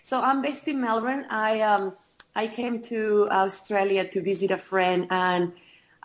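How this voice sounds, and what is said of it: Foreign-accented English. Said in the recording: “Your beautiful accent.”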